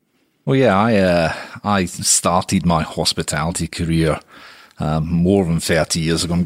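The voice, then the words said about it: Scottish accent. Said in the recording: “your accent will clearly give it away. You come from a Scottish background”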